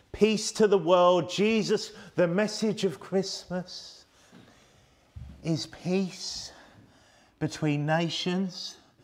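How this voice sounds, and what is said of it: Effeminate-sounding vicar impression. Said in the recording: “effeminate sounding vicars, priests and similar ... I reckon I'm doing a good impression of someone I don't even know”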